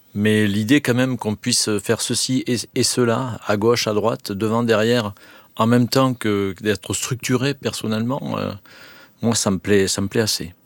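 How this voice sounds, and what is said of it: Slight southern French accent. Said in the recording (French): “on entend un petit accent. Vous venez du Sud ... un pur produit agenais. Dans le sud-ouest”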